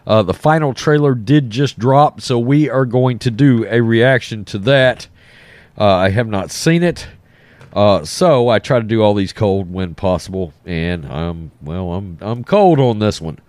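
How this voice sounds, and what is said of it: Voice rough from a cold. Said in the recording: “Excuse my voice. I've got a bad cold.”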